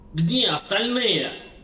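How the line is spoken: Bark. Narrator (Russian): рявкнул он

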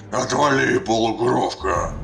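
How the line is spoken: Barked, orc. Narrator (Russian): рявкнул орк

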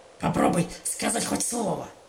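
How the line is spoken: Warning growl. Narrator (Russian): предупреждающе прорычала она

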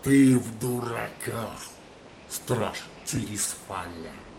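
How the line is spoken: Clumsy growl. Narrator (Russian): прорычал неуклюже произнося непривычные ему человеческие заклинания

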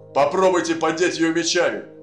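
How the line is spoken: Barked command. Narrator (Russian): рявкнул Лотар

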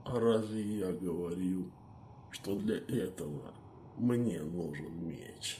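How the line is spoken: Tired, smiling. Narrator (Russian): Устало улыбнулся Медив

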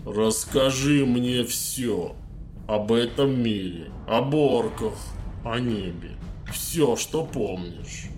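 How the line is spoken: Stony commanding voice. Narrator (Russian): каменным голосом скомандовал маг

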